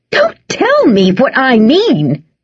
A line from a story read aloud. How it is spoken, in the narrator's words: shouted Bess